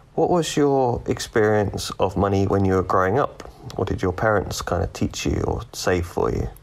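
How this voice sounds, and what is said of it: British accent. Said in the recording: “I like ... accent ... That's a good one ... he's actually from the UK”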